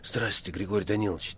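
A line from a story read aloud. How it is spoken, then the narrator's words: Quiet. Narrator (Russian): тихо заговорил Степа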